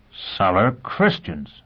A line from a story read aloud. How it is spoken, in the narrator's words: Foyle exclaimed